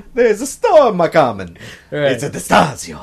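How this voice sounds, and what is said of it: Put-on Italian accent, Mario-like. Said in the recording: “My only Italian accent”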